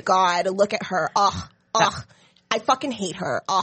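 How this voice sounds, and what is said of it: Put-on California white woman voice. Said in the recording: “That's California white again. You're doing a California white dialect.”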